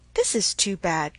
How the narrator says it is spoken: cried Emma

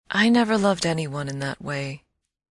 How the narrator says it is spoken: she said rather sadly

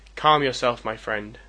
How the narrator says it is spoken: I said

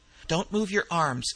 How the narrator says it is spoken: exclaimed McClellan sharply

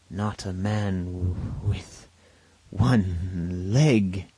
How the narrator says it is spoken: he gasped

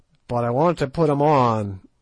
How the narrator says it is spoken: roared Good in nervous English

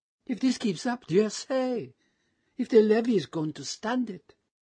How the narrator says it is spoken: she exclaimed

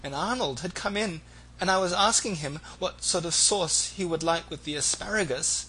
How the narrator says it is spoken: Momeby tearfully

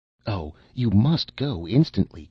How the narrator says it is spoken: cried the two men

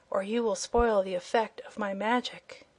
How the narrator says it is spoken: he whispered

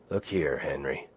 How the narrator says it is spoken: Bill said, unconsciously lowering his voice to a whisper because of what he imitated

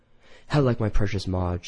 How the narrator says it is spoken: she sighed

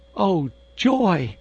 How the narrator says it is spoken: exclaimed the insect in delight

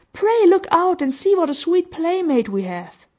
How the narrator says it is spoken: cried Violet

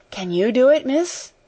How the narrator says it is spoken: faltered Becky, regarding her with admiring eyes

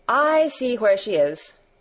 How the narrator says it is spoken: exclaimed Barbel

